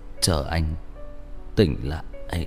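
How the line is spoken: Breathless, weak, quiet. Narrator (Vietnamese): Hắn thở hổn hển một lúc lâu mới nhỏ giọng vất vả nói

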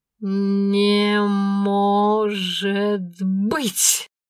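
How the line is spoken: Stunned, drawn-out. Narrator (Russian): ошарашенно протянула Аленка

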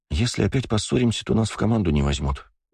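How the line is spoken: Sighing. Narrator (Russian): вздохнула Элонор

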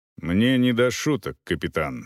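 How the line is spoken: Stern reply. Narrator (Russian): строго отвечал Волков

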